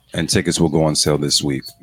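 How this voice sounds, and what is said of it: Smooth radio announcer voice. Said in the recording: “I'm using this voice all day. ... My radio voice.”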